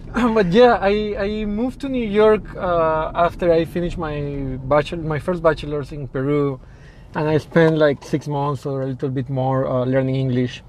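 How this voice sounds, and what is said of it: Foreign accent, sounds formal. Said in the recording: “You sound so formal when you say, hello, everyone... It's my accent. It makes everything sound formal and special.”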